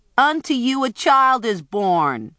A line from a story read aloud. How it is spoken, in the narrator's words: she yelled at the shepherds